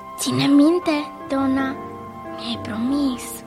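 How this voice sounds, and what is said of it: Whispering. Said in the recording (Romanian): “șopti”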